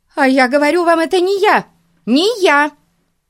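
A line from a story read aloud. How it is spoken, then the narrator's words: Screaming. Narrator (Russian): закричала миссис Мун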